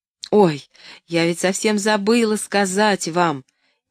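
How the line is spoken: Embarrassed exclamation. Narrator (Russian): Неожиданно покраснев, воскликнула Поллианна

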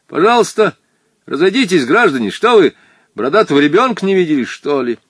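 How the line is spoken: Shouting man. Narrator (Russian): Женин дядя крикнул

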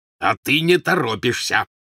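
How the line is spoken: Growled. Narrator (Russian): прорычал Вернон Дурсль

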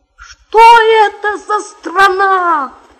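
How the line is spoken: Surprised exclamation. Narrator (Russian): воскликнул удивленный главный буржуй

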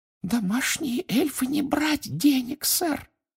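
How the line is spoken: Muffled squeak. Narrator (Russian): приглушенно пропищала она

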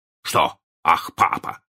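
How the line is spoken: Stern question. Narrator (Russian): спросил мистер Дарлинг строго

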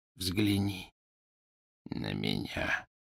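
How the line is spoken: Whispered. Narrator (Russian): прошептал он

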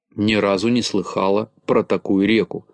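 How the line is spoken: Plain. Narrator (Russian): сказала Галочка

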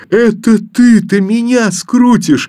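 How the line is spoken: Boy laughing loudly. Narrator (Russian): с громким хохотом ответил мальчик

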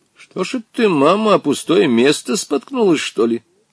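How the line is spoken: Relieved laugh. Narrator (Russian): Облегченно рассмеялся Волькин отец, довольный, что бабушка нисколько не пострадала при падении

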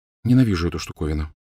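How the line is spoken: Quiet voice. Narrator (Russian): тихо сказала она

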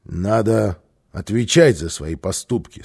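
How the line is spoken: Stern. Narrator (Russian): строго сказал папа

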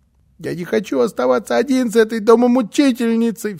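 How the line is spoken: Sobbing. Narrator (Russian): всхлипывал он

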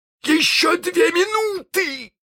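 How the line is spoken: Shouting. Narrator (Russian): закричал он

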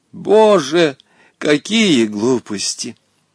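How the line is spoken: Sighing. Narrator (Russian): вздохнула Наталья Кузьминишна

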